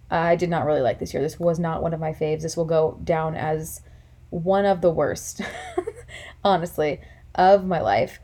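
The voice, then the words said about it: Tired, weary voice. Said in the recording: “if you can't tell by my voice, it's very late and I'm very tired”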